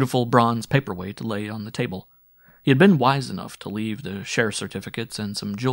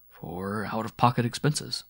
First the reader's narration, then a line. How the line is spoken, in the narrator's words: murmuring